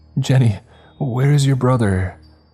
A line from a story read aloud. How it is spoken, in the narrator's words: the mother asks frantically